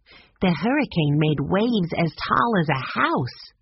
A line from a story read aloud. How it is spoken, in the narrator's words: Violet said in an awed voice